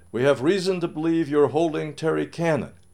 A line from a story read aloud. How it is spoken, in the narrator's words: she shouted